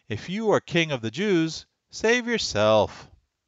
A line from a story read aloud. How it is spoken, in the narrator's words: they called out